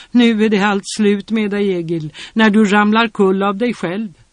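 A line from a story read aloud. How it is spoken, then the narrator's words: Women laughing mockingly. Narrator (Swedish): Några kvinnfolk som såg och det skrattade åt honom och sa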